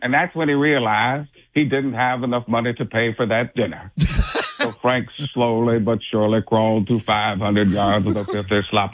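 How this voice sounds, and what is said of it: Morgan Freeman impression. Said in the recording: “A Morgan Freeman”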